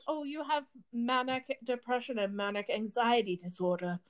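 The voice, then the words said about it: Put-on accent, done well. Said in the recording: “in like that exact accent. I'm really good at accents... It's really good.”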